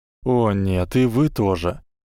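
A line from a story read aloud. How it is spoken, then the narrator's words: Tired. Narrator (Russian): устало сказал Гарри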